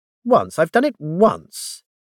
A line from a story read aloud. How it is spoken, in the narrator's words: said indignantly